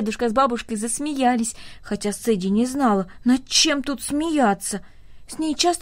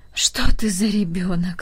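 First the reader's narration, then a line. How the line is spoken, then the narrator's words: Sighing old woman. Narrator (Russian): вздохнула бабушка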